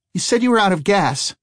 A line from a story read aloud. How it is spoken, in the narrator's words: Eli cried out